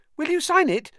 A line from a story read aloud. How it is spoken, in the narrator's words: said Colin eagerly